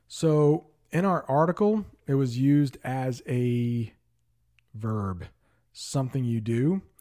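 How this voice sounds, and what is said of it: Worn, strained voice. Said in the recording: “My voice isn't that good from teaching all day.”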